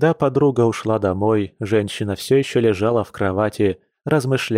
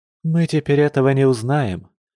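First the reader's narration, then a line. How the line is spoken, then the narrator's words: Sad sigh. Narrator (Russian): печально вздохнула Маша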